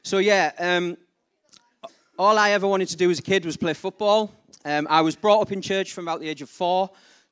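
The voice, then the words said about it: Slight Geordie accent. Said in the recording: “my slightly Geordie accent”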